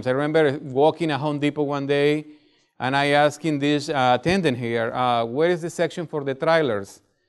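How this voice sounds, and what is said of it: Foreign accent, sometimes hard to understand. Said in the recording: “because my accent, it seems like people don't get it”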